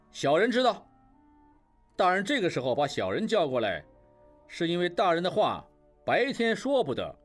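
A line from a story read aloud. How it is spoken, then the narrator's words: Loud reply. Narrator (Chinese): 应镇高声回答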